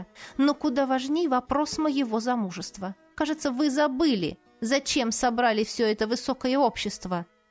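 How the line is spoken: Through gritted teeth. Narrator (Russian): сквозь зубы сообщила я

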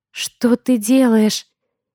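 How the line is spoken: Hoarse question. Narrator (Russian): Сипло осведомляюсь я, замерев

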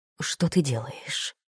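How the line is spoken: Whisper. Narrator (Russian): прошептал

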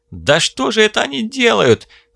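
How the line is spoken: Yelling. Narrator (Russian): заорал напарник

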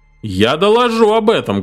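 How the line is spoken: Loud announcement. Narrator (Russian): громко объявил Митч

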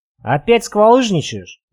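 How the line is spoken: Sighing. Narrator (Russian): вздохнул Николай

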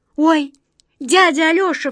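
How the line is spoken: Sudden cry. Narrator (Russian): вскрикнула Катя

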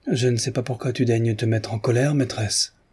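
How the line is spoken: Gentle remark. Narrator (French): fit observer doucement Mavra

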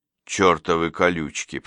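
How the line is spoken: Grumble through teeth. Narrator (Russian): проворчал он сквозь зубы

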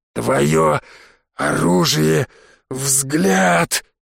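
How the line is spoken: Hoarse wheeze. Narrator (Russian): прохрипел мне Виктор

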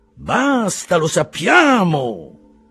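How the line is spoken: Exclaimed. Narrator (Italian): esclamò Settembrini

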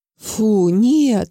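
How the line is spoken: Grief-stricken exhale. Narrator (Russian): выдохнул убитый горем Павлов

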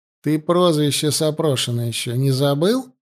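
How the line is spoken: Snide question. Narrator (Russian): ехидно поинтересовался Данилов

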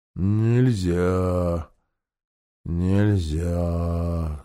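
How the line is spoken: Sleepy repetition. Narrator (Russian): сонно повторила Гого

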